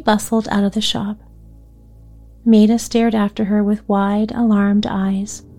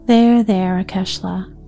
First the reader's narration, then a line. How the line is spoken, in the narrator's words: Granny said soothingly